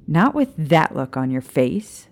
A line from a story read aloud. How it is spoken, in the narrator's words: Lily scoffed